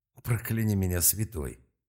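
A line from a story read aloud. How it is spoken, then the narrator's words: Breathless exhale. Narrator (Russian): выдохнул он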